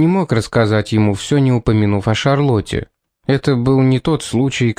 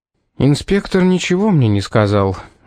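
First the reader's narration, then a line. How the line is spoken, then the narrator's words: Gloomy admission. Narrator (Russian): мрачно признался он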